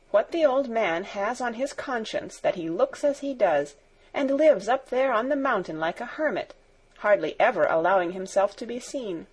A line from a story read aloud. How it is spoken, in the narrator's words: continued Barbel, in an inquiring tone of voice